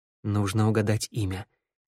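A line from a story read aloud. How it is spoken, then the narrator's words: Quiet. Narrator (Russian): тихо сказал ей Теодор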